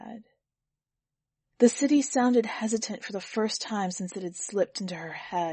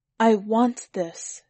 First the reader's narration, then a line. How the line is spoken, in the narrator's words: replied